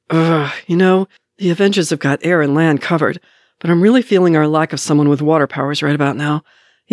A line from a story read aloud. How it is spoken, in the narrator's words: Bucky, who groans